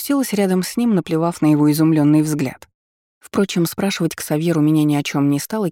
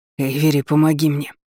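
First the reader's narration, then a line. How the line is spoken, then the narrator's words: Hoarse rasp. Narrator (Russian): прохрипел он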